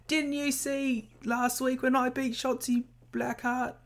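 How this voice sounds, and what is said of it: Struggling put-on Australian accent. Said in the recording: “I like that you're struggling with an Australian accent.”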